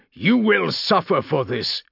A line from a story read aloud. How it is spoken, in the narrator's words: he shouted